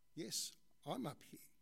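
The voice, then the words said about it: Deep voice. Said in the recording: “deep voice”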